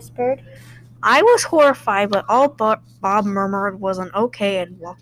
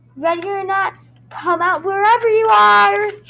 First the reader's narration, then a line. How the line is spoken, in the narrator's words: Quinn shouted